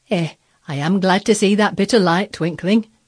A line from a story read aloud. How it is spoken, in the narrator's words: she exclaimed